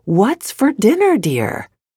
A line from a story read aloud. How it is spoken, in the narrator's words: Still getting no response, Nasruddin repeated loudly